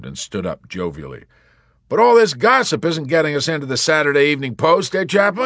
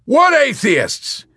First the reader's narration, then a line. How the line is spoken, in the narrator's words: He bellowed defensively, his whole manner changing in a flash to one of virtuous and belligerent denial